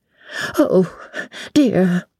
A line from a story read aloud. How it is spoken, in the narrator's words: breathed the little old lady